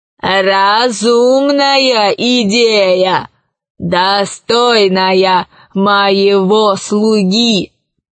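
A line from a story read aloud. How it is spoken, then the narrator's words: Plain. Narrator (Russian): сказал хозяин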